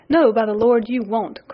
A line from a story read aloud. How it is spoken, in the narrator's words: cried Sandy